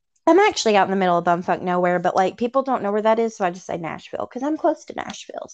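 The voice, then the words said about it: Southern Tennessee accent. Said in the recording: “I love your accent ... I'm from Tennessee ... Southern ... usually my accent's enough of an introduction”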